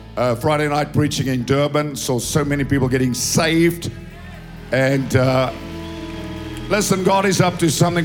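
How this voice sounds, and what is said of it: Hoarse voice. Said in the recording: “you can hear my voice is a bit hoarse”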